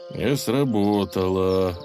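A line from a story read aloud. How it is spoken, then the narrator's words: Exhausted sigh. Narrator (Russian): вздохнул Илья, когда у него закончились силы выделывать кульбиты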